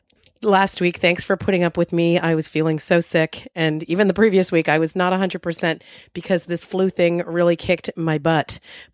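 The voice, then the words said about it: Rough, hoarse voice. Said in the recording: “My voice is still not 100% ... my voice is going to be a little rough around the edges for a while yet. That's what a horrible hacking cough will do to you”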